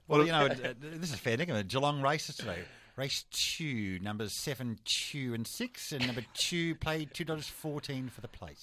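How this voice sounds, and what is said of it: Richie Benaud impression. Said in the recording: “Have you got a Richie Beno impersonation for us ... your best Richie impersonation”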